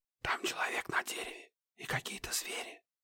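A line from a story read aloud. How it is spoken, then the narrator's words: Whisper. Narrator (Russian): шепнул Захар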